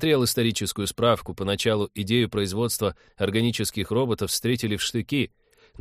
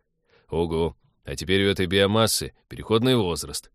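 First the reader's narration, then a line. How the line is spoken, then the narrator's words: Grim joking. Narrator (Russian): мрачно пошутил Станислав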